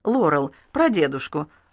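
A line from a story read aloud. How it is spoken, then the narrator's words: Anxious question. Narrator (Russian): взволнованно спросила Карен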